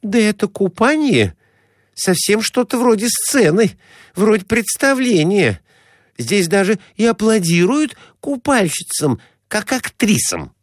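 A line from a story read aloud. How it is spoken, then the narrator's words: Exclaimed. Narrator (Russian): воскликнула Глафира Семеновна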